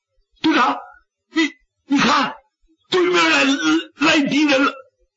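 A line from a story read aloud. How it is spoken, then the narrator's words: Someone shouting. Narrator (Chinese): 有人 喊了一声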